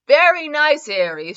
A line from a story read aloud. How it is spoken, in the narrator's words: Joksha replied with a laugh